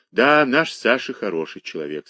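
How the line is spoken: Plain. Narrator (Russian): сказал Борис

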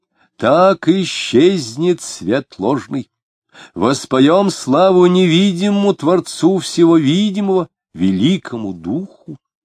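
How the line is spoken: Loud and stern. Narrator (Russian): Марина громко и сурово сказала

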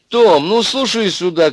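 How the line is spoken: Shouting into phone. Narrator (Russian): кричала в трубку библиотекарша

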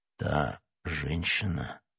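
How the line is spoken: Muffled, barely audible question. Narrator (Russian): переспросил Атос таким глухим голосом, что Д'Артаньян едва расслышал его

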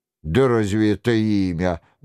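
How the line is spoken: Mocking. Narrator (Russian): насмешливо бросил тюремщик

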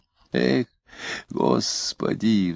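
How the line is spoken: Sighing. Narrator (Russian): вздохнул Митрофанов

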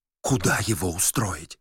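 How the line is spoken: Whisper. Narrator (Russian): шептала Варвара

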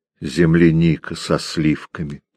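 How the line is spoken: Soft, languid. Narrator (Russian): тихо и томно произнесла Ирма

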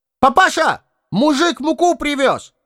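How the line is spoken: Shouting. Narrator (Russian): крикнул Ваня

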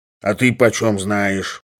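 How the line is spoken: Grumbled angrily. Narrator (Russian): проворчал Самойленко со злобой

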